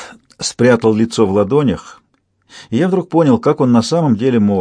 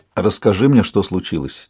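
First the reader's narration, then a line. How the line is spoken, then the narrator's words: Quiet request. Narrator (Russian): тихо попросил Чейд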